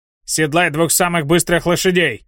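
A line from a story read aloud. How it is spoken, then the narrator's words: Barked. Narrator (Russian): рявкнул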